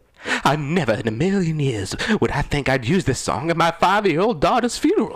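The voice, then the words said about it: Silly put-on goofy voice. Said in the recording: “in a serious voice or a stupid voice? ... Please, stupid.”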